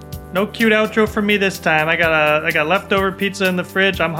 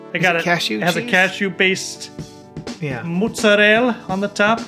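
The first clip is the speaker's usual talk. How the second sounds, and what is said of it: Put-on Italian accent. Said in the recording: “Authentic Italian accent. I'm dropping on you here.”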